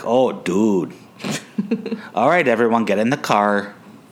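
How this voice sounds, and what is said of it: Imitated Minnesotan accent. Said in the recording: “really spoke Minnesotan”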